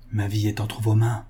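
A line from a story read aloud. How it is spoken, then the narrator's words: Very low murmur. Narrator (French): murmura tout bas M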